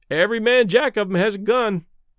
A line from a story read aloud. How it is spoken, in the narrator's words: one of the sailors remarked cheerfully